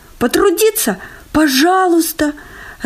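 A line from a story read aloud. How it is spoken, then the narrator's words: Joyful. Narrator (Russian): радостно вскочил Чмок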